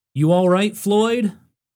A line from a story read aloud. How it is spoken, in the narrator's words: They yelled down